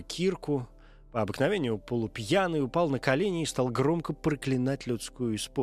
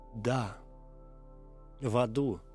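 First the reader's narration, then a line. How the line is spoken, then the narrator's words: Barely audible wretched voice. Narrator (Russian): ответил несчастный едва слышным голосом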